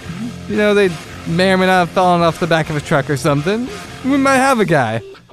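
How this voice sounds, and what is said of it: Mafia gangster impression. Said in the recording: “like, mafia impersonation”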